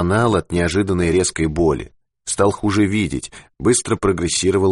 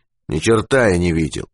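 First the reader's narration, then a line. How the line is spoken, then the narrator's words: Gloomy. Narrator (Russian): мрачно проговорил Юрковский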